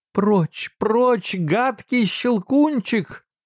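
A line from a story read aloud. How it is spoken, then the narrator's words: Terrified scream, face covered. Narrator (Russian): в ужасе закрыла лицо руками и закричала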